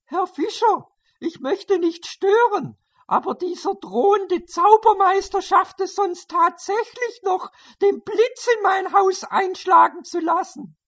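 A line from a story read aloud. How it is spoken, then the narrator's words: Calling from outside. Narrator (German): die Anstandsdame Hilde rief von draußen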